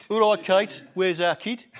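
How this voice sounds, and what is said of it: Put-on regional English accent. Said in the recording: “Up the Villa. That's how we talk up there... that's as good an accent as my Jordan... This is how Prince William speaks at home.”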